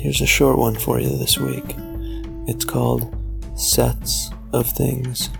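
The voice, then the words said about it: Whispering. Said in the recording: “I'm sorry I'm whispering. ... I'm in a place where I can't talk loud”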